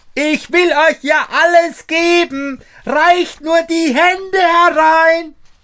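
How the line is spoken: Shouting as loud as possible. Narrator (German): schrie Daumestick noch einmal, so laut er konnte

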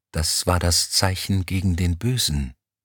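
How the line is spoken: Whispering while walking. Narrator (German): flüsterte Kolaou Elm zu

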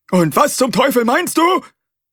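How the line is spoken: Roar. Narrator (German): brüllte er

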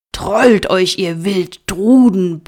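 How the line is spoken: Bellowing. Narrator (German): brüllte

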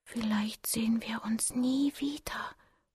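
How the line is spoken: Whisper. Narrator (German): flüsterte ich

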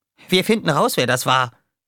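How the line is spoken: Calling out. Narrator (German): rief Roughshot

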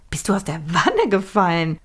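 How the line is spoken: Laughing. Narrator (German): lachte Millie

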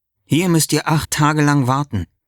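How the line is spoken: Plain. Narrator (German): sagt Jesus

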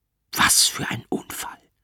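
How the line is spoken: Whispered. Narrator (German): flüstert mir der Arzt zu

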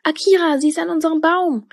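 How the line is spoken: Called out. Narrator (German): rief Tilda

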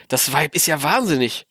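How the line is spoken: Muttered. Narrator (German): murmelte

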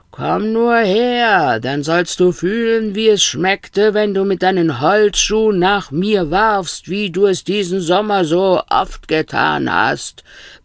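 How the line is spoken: Roaring. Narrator (German): brüllte Stern

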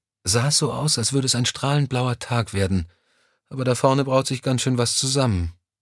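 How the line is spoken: Sigh. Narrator (German): seufzte

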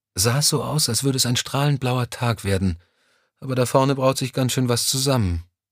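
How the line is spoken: Sigh. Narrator (German): seufzte sie

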